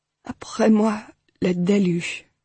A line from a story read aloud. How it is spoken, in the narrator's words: Hal said softly